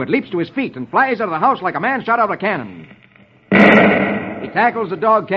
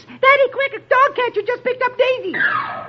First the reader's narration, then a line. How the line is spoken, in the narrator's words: his daughter shrieks